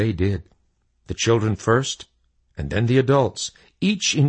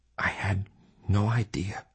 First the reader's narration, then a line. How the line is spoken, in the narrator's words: he whispered